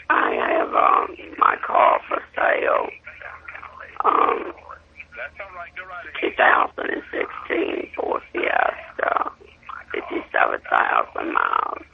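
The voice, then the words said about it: Hoarse, fading voice. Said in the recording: “I've been sick, so I'm kind of losing my voice.”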